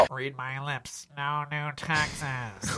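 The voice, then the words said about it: Imitates another person's voice. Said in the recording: “I got this bit about George H.W. Bush that I'm working on.”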